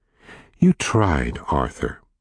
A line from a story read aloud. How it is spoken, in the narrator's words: his mother said soothingly, her voice full of sympathy, now that he was safely home